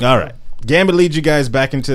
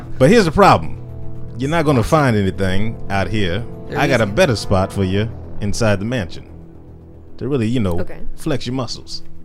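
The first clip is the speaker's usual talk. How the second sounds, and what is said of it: Put-on Cajun accent as Gambit. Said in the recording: “This is a southern accent you're trying to do? ... That's Cajun. ... Best as Cajun I can do.”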